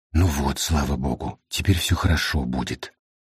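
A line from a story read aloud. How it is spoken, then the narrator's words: Tearful reassuring whisper. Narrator (Russian): Стала вытирать платком нос и глаза и убеждать кого-то шепотом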